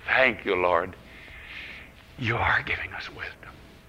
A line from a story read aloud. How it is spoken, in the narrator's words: Quietly